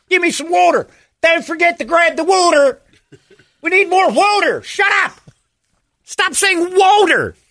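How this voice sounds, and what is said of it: Exaggerated Philadelphia accent. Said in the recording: “We call it wooter. I'm from Cherry Hill. Ugh, your accent is worse than Boston.”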